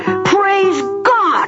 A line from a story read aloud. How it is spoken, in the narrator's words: he yelled